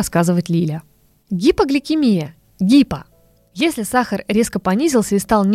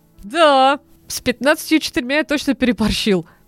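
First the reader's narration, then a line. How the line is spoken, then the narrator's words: Laughing. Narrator (Russian): засмеялся Тёма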